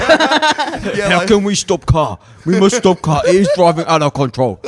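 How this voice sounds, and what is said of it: Mock Adelaide accent. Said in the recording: “What a novel interpretation of the Adelaide accent”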